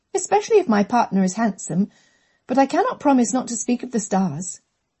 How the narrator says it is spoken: Catherine said cheerfully

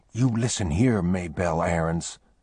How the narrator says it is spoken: he whispered fiercely

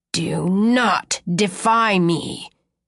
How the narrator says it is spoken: he growls

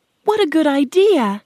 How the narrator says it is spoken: Dorothy cried

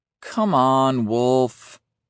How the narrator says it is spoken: says with a tinkling laugh

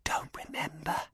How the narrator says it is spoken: whispered

